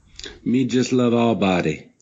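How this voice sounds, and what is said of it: Attempted Guyanese accent. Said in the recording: “that was ... trying to speak in a Guyanese accent”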